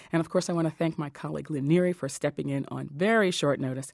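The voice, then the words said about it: Slightly hoarse, laryngitic voice. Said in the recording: “I want to start by apologizing for my voice. I've still got a little bit of the laryngitis that kept me off the air Friday.”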